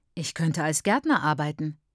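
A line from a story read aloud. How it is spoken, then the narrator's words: Plain. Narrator (German): sagt der Mann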